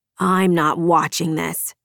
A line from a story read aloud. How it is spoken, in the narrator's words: Felix growled